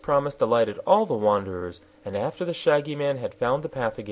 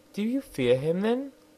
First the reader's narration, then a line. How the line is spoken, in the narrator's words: asked the princess anxiously